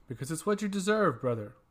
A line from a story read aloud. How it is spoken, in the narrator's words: retorted harshly